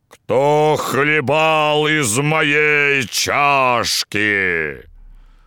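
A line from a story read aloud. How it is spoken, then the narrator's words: Terrible bear's roar. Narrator (Russian): Большой медведь ... заревел страшным голосом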